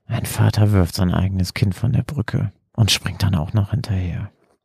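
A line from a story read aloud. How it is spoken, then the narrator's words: Tearful murmur. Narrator (German): wischte sich eine Träne von der Backe und murmelte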